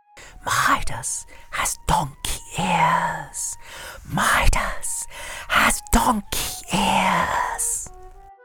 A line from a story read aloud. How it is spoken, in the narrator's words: whispered